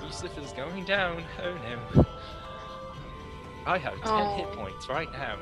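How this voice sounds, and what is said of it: Worried character voice. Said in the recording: “This is a different accent... This is his worried accent... This is my worried accent”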